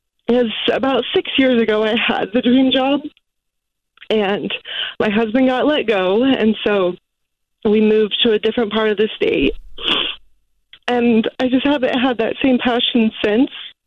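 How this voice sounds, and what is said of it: Tearful, emotional speech. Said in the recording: “I get emotional. ... Why are you crying?”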